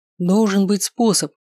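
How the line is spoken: Exclaimed. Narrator (Russian): воскликнул я

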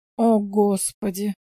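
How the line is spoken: Hippie sighing. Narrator (Russian): вздохнул хиппи

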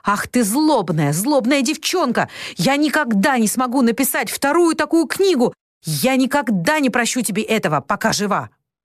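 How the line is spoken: Screamed in grief and rage. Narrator (Russian): В приступе горя и ярости она закричала

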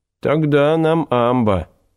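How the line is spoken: Plain. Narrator (Russian): сказал Ельцин

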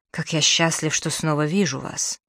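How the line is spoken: Whispered. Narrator (Russian): прошептал

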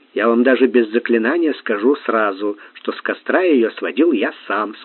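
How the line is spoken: Plain. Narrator (Russian): сказал Сварог

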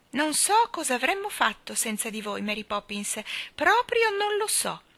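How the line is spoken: Cheerful voice. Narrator (Italian): disse Nelly Rubina con voce allegra

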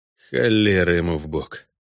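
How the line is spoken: Grumbled. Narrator (Russian): проворчал Геральт, добавил

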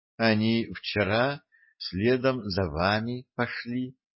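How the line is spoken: Quiet. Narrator (Russian): негромко ответила сирень

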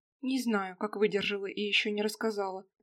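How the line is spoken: Plain. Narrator (Russian): говорит Катерина

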